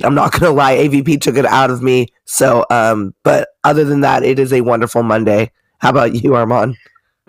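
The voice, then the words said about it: Tired, worn-out voice. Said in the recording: “everybody can probably hear it in my voice. I am beat.”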